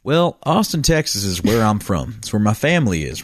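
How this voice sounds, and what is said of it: Slight put-on Southern accent. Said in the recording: “I feel like you have to do like an accent for this... Okay, I'll do an accent for this. We'll do a uh, we'll do a slightly... southern”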